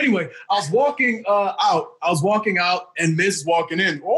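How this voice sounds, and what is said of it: Usual voice. Nothing is said of it.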